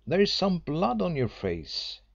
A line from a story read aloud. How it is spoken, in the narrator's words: I cried as soon as I saw him